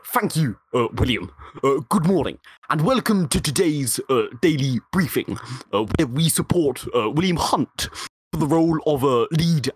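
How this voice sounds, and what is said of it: Imitates another person's voice. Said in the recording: “did a Boris Johnson impression”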